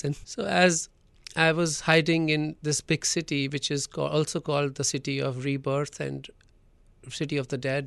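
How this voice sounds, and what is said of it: Unclear accent, soft V and W sounds. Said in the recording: “I already have a bad, like, you know, not a very clear accent. And then sometimes I don't stress on perfect V's and W's.”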